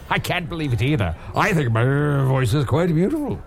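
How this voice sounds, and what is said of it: Funny character voice. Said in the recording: “he said Usador had a funny voice”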